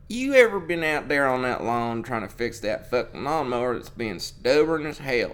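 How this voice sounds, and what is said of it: Put-on cowboy accent. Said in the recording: “in that, like, cowboy accent”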